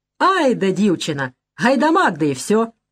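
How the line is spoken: Sudden merry laughter. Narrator (Russian): Нелидов вдруг весело смеется

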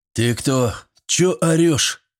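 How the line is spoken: Hoarse voice from behind. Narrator (Russian): Прохрипел кто-то за моей спиной

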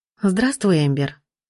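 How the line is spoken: Warm, affectionate voice. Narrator (Russian): Она улыбнулась мне ласково, ее голос потеплел

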